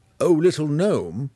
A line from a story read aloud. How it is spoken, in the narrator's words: he called out after the departing figure